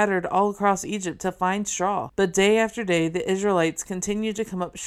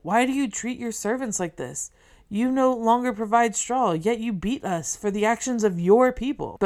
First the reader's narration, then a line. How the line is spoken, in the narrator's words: The foremen of Israel cried out to Pharaoh